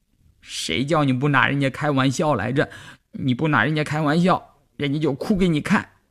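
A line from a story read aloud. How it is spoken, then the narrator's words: Crying. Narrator (Chinese): 季杰一边哭一边说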